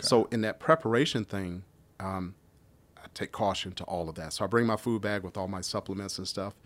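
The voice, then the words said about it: Slightly scratchy voice. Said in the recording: “So my voice is a little bit scratchier. ... Oh, it just sounds different.”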